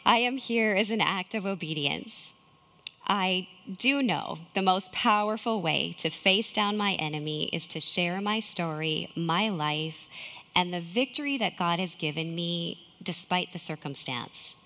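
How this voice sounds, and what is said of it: Shaky, nervous voice. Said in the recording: “My voice is shaking.”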